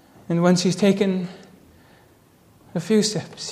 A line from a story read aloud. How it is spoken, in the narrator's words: he cries